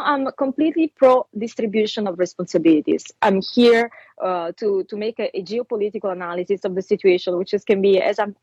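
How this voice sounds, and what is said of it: Italian accent. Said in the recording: “is from Italy... my people are Italian. I know what your accent is. You don't sound anything like a Russian.”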